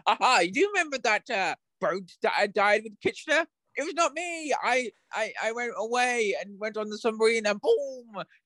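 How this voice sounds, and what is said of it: Put-on British accent. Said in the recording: “I'm going to say it in my British accent because I can't do Scottish.”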